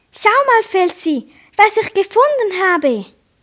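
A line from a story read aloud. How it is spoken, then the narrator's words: Cheerful call. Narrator (German): rief Nagikrum fröhlich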